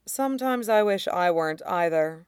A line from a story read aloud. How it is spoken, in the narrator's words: Shirong sighed